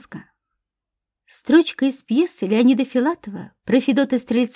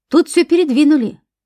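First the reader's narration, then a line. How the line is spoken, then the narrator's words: Shouting from another room. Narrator (Russian): крикнул из спальни оперативник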